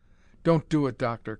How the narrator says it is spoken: cried Carnes

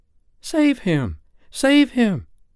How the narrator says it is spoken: cried Wendy, looking with horror

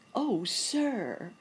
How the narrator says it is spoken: cried the prince who was in charge of the committee

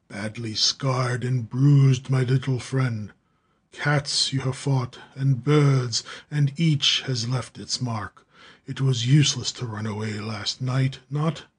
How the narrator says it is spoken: The giant Hagendorff, his deep voice rumbled

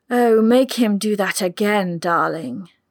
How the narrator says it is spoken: Deirdre purred

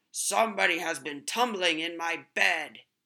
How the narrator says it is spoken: the Big Bear growled

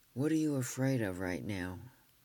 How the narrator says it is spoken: I said gently

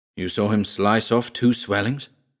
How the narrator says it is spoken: Van Ruyten asked

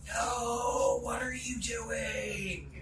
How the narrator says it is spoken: you hear this whisper

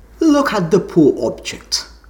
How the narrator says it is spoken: said the king

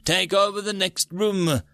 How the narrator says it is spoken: Alpha gasped

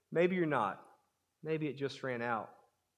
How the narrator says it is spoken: God looks at him with a sad smile and gently says

